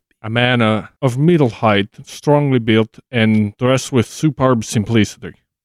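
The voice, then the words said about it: Put-on Danish accent. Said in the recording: “Danish accent”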